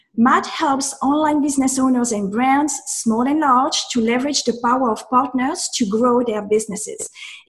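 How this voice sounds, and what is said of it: French accent. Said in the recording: “my intro is a lot cooler with a French accent”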